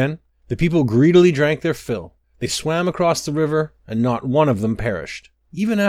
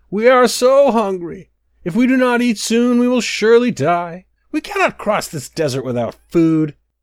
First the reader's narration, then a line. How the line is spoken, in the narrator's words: Once again, the people cried out